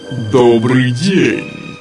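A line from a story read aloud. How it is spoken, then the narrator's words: Deep booming giant's voice. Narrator (Russian): пробасил великан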